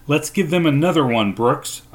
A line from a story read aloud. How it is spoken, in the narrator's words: shouted, more confident now